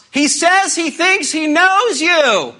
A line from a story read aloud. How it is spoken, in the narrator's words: He shouts